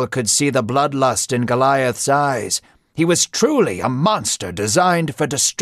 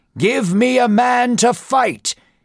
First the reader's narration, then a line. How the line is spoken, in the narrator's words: he shouted